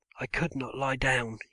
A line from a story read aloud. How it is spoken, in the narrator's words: he called up hoarsely